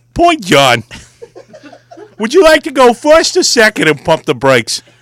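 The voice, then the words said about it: Put-on New York accent. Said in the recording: “Somehow I turned to some New York accent? ... Yeah, you're kind of losing it there.”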